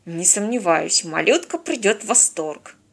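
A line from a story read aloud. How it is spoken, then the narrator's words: Grumbling. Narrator (Russian): проворчал Станислав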